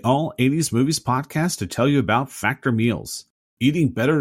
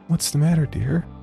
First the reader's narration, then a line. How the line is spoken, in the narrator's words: She said in a sweet voice